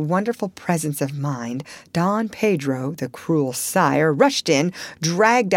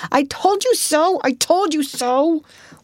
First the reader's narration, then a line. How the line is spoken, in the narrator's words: A universal shriek arose, exclaiming